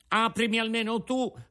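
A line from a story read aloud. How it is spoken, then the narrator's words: Crying, pleading shout. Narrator (Italian): gridò Pinocchio, piangendo e raccomandandosi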